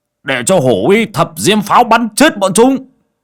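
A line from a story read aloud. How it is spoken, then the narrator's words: Shout. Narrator (Vietnamese): Bảy ếch quát lên một tiếng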